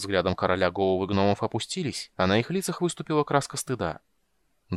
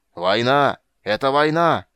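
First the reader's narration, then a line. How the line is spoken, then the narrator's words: King shouting over noise. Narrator (Russian): прокричал король, перекрывая шум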